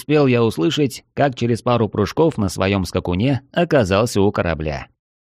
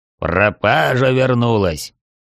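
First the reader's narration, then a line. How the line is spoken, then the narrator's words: Deep booming greeting. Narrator (Russian): утробным голосом приветствует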